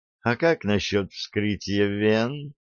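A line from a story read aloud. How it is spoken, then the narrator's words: Tender purr. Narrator (Russian): нежно промурлыкала Глория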